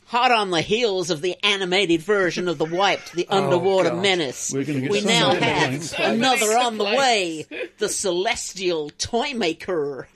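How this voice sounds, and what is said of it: Put-on American accent, inconsistent. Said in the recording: “I've decided to read this in an American accent. ... can you choose at least a side of America?”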